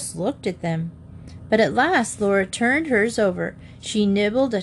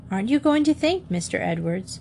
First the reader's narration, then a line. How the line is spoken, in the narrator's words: Ma said gently